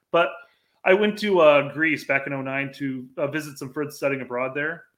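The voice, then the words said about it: Midwestern American accent. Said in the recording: “it's so nice to hear another Midwestern accent”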